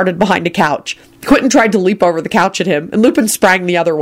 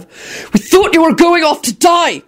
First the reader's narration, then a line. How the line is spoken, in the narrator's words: Quentin bellowed wrathfully